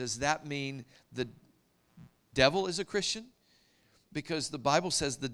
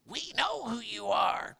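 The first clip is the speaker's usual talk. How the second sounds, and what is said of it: Scary demon voice. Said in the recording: “my best scary demon voice”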